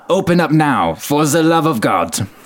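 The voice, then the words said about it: Severe voice, attempted German accent. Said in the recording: “a severe voice, distorted by a thick German accent ... I don't know how to do a German accent.”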